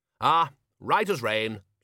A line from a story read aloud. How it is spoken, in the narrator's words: said Ridcully cheerfully